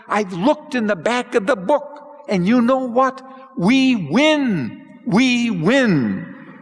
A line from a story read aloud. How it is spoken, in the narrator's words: shouted